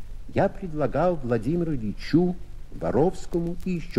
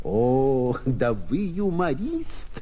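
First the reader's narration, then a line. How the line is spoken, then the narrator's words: Speaking through laughter. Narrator (Russian): говорил он сквозь смех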